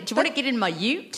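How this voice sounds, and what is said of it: Put-on Australian accent. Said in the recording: “I can do an Australian accent as well... Oh, that's very good... that sounds a bit like my mum”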